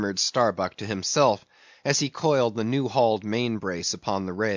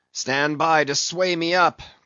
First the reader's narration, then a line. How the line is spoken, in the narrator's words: cried Ahab